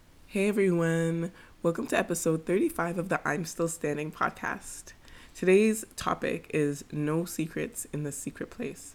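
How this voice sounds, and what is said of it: Noticeably affected, off-sounding voice. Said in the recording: “I don't know if you can tell in my voice, I had a bit of an allergic reaction ... it's kind of lingered. So don't mind my voice.”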